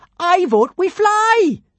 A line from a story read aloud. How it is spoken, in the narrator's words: she yelled